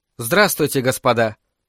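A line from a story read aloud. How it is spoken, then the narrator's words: Calm greeting. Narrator (Russian): спокойно приветствовала их графиня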